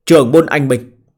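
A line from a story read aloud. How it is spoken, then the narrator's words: Raised voice. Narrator (Vietnamese): Phó Quân Nhượng cao giọng nói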